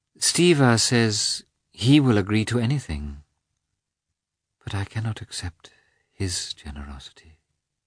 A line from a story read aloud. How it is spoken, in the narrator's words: she said, dreamily